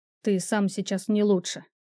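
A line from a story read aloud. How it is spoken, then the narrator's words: Quiet. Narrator (Russian): тихо проговорил Лансер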